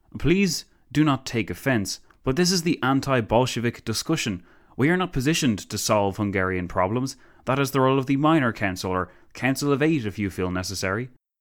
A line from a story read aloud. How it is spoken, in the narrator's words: Pilsudski sighed